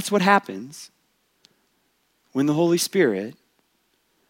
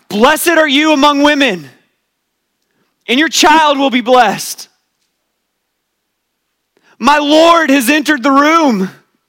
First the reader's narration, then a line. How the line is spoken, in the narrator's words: She shouts, exclaims with a loud cry